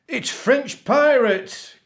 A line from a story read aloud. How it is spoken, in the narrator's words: cried the captain